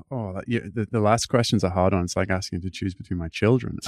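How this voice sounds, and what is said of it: Slightly mixed British accent. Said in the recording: “I am British, but yes, my accent is slightly mangled now.”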